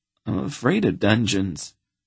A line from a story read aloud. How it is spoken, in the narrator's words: he said in a small voice, suddenly very ashamed of himself